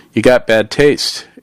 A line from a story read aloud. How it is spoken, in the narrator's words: Alicia replied, chuckling